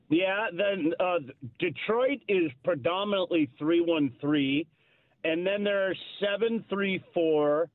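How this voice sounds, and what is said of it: Canadian accent. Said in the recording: “that beautiful Canadian accent ... one of those accents I miss”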